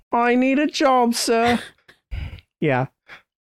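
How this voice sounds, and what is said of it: Bad put-on Oliver Twist accent. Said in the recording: “That's my terrible accent. That's my terrible Oliver Twist.”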